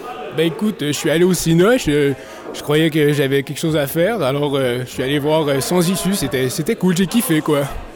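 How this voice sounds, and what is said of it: Strong regional French accent. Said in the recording (French): “ton accent te vient de quelle région? ... Ça s'entend très bien.”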